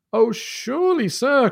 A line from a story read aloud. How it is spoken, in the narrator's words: cried Dr